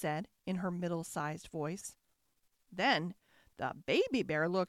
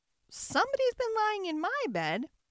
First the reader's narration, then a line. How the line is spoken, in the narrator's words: squeaked the baby bear joyfully